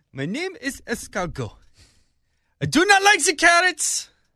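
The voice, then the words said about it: Put-on French accent. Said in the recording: “I put on a French accent.”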